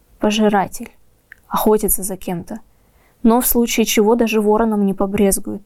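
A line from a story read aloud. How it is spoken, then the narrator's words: Quiet reply. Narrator (Russian): так же тихо ответил ворон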